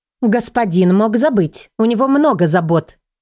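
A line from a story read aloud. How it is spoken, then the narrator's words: Stern reply. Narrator (Russian): строго ответила я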